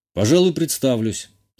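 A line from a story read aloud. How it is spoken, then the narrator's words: Calm. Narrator (Russian): спокойно сказал я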